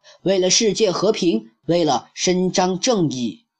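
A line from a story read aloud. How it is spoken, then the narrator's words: Loud chorus. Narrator (Chinese): 一百名身怀绝技的超级英雄学员全体 高声喊道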